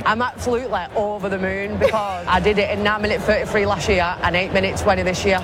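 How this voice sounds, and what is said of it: Wigan accent. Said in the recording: “She's from Wigan... you can tell she's from Wigan... I love that accent”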